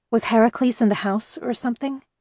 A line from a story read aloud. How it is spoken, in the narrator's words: I asked uneasily